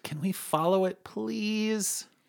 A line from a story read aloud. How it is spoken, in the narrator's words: Intrigued, Lucas begged